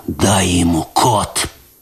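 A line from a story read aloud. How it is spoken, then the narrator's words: Hoarse wheeze. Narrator (Russian): прохрипел он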